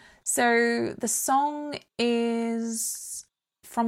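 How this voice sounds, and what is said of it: Usual voice. Nothing is said of it.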